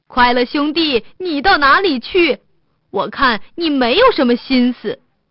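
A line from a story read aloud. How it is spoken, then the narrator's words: Dwarf calling out. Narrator (Chinese): 一个矮子出来喊他说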